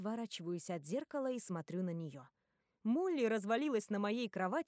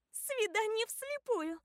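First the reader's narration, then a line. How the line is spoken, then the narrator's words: Squealing. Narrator (Russian): взвизгивает Молли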